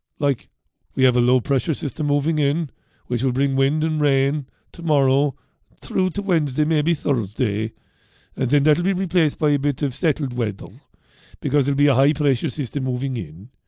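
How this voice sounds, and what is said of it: Unidentified put-on accent. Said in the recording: “I don't know what that accent was”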